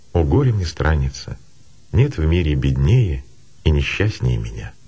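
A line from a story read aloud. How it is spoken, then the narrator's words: Heavy sigh, tearful speech. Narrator (Russian): Тяжко вздохнув, Матфидия прослезилась и сказала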